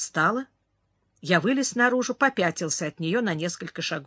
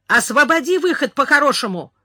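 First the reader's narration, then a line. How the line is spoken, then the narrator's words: Shouted. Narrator (Russian): крикнул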